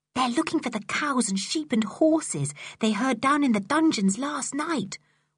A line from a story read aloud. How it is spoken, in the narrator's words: whispered Dick to Julian